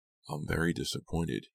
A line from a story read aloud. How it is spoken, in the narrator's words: murmured